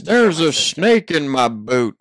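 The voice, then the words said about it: Attempted Woody impression, Tom Hanks. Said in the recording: “You just have Woody on there ... That wasn't bad ... That was not a good ... you have to sound like Tom Hanks”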